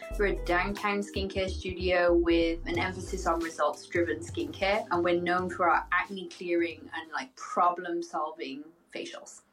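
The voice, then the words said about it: Speaks with a noticeable accent. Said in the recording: “your accent is fantastic”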